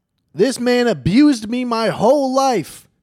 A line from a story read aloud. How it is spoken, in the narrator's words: screaming